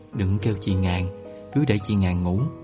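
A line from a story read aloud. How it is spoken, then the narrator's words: Hushed, shushing. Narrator (Vietnamese): Khải nhăn nhó, hạ giọng suỵt khẽ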